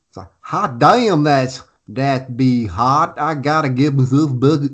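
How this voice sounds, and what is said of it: Put-on hick accent. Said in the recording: “He'll do a hick accent... I don't think hick is one of my natural accents.”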